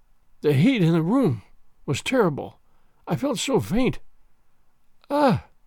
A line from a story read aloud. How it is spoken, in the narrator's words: murmured faintly